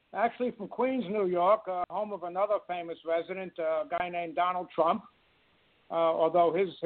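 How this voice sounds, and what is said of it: New York City accent. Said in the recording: “I'm from New York City, in case the accent hasn't given it away. ... I love the accent.”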